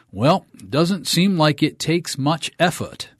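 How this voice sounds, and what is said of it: Maine accent. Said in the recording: “I'm from Maine, so she had a Maine accent.”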